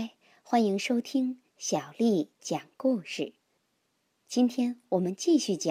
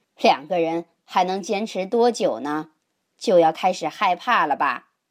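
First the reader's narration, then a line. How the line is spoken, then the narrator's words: Cheerful teasing. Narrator (Chinese): 比他大几岁的木村老师笑嘻嘻地说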